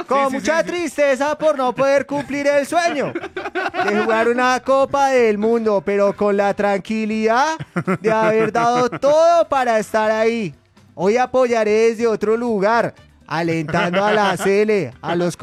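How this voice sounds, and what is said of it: Put-on Argentine accent. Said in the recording (Spanish): “¿Quién quiere hacer la voz de Borré? ... ¿Y si argentino? Lo hago así.”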